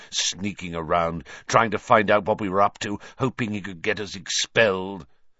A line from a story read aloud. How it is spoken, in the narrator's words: he sneered